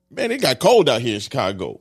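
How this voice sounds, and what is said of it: Loud, excited yelling voice. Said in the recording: “why are you yelling? ... I'm turned up. ... You're so excited.”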